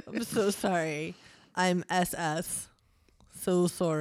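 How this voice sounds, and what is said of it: Poor put-on Canadian accent, sounds Russian. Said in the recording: “I think that's almost Russian, which is like not what you're trying to do. ... I'm trying to do Canadian. ... whose accent ... I butcher.”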